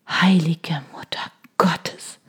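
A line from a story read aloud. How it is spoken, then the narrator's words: Murmuring. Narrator (German): hörte ich mich murmeln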